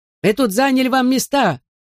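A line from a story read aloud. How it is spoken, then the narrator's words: Old man shouting. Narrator (Russian): заорал дедушка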